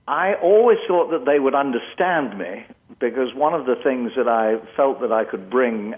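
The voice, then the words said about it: English accent. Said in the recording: “you've come from England. Were you concerned that people would have difficulty with the accent?”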